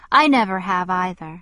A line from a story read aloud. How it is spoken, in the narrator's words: he said in his sad, monotonous voice, which was no deeper than mine